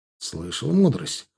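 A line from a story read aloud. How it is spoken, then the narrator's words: Snort. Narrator (Russian): хмыкнул я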